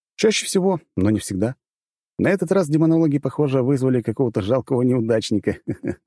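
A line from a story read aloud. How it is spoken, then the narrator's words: Laughing. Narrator (Russian): засмеялся я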